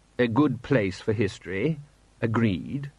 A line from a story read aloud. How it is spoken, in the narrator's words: said the patrician solemnly